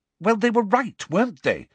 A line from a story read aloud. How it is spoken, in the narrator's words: said Hermione impatiently